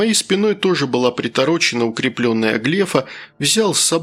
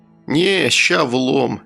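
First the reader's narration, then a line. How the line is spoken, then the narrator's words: Lazy drawl. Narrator (Russian): лениво произнес я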